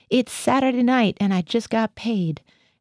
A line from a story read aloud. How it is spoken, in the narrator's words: I heard Gothia howl